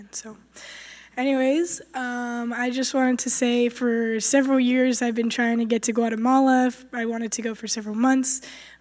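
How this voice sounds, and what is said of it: Hoarse, partly lost voice. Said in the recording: “Sorry about my voice. I lost it, but I'm finding it again.”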